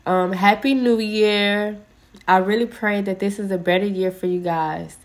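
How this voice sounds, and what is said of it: Congested, stuffy voice. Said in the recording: “So I'm a little congested ... I still got my little cough and I'm still a little congested ... if I sound a little congested, I'm sorry about that.”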